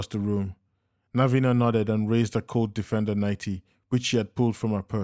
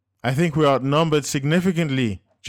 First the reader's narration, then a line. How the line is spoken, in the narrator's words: Joseph yelled back